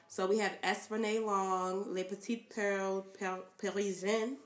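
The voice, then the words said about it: Put-on French accent. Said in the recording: “I got my French together ... accent”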